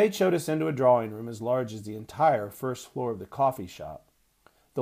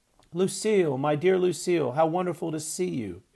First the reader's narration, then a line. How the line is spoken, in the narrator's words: exclaimed Prunella Ogilvy